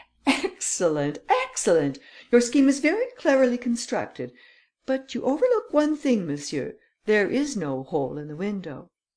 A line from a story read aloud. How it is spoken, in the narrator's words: The Count laughed and said